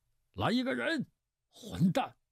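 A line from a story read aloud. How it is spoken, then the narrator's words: Frantic roar. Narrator (Chinese): 乌孙府发狂似的吼道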